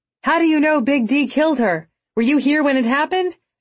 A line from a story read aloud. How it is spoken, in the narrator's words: Salt called out to him, then dropped her shoulders in exasperation